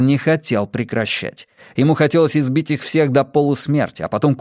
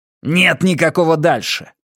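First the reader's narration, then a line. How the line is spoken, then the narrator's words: Barking snap. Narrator (Russian): рявкнул Каз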